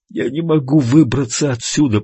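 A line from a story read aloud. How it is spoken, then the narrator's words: Groaned. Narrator (Russian): простонал Блейз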